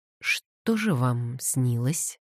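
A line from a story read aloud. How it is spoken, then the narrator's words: Gentle question. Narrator (Russian): мягко спросил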